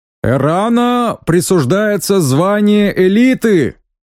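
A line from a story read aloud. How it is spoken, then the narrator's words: Shout. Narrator (Russian): прокричал тот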